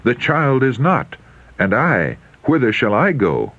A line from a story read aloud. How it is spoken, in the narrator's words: In alarm and self-reproach, he exclaiming